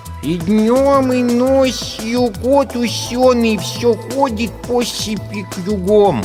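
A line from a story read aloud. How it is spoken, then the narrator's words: Child lisping heavily. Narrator (Russian): Мальчонка нещадно шепелявя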